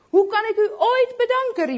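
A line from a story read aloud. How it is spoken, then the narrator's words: Happy exclamation. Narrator (Dutch): riep blij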